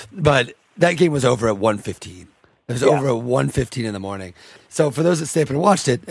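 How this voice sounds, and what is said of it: Slightly scratchy voice. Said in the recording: “my voice is a little scratchy because I sit up a little later than I probably should have”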